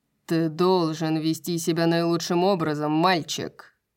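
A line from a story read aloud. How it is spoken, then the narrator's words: Father's growl. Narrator (Russian): прорычал его отец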